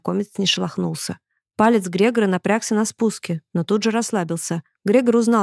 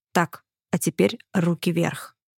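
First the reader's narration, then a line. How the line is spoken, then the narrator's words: Quiet and determined. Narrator (Russian): Грегор тихим решительным голосом произнес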